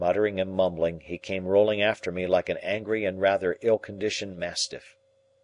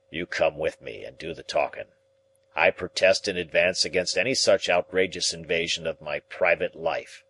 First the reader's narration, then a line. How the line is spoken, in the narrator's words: he grumbled